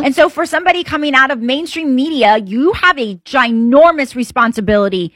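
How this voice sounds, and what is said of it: Accent coming through strongly. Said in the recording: “when you really get worked up, I hear the accent coming out”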